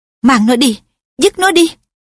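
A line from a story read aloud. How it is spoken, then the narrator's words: Harsh. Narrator (Vietnamese): Nàng gây gắt nói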